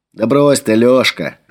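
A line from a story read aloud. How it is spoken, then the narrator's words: Laughing. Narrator (Russian): рассмеялся Флавиан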